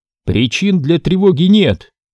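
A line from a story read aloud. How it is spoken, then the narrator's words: Shout. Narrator (Russian): крикнула Изабель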